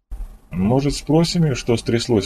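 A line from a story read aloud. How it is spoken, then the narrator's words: Timid suggestion. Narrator (Russian): робко предложила Жанет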